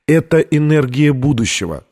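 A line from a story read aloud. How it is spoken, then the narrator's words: Plain. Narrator (Russian): сказала Витория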